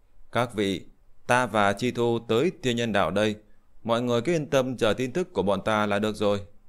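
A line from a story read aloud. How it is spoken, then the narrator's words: Laughing loudly. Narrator (Vietnamese): Liễu Tuyết cười lớn nói với mọi người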